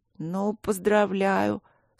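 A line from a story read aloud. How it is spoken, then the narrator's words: Sleepy. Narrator (Russian): сонно сказала сестра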